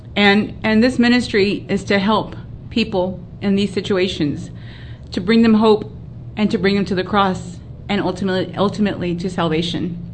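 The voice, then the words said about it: Emotional voice. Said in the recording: “Sorry for getting emotional. I get emotional when I read the word.”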